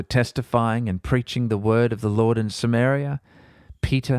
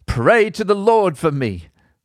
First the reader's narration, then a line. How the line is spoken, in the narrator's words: Simon exclaimed